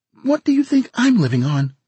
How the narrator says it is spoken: She asked sharply

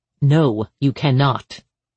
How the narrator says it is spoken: Harper said sharply

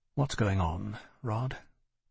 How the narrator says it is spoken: I said quietly

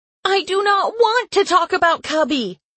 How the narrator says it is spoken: I yelled

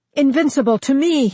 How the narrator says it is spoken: he cried, and realized his voice was shaking

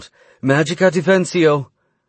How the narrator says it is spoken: she called out

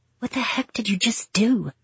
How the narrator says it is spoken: I whispered

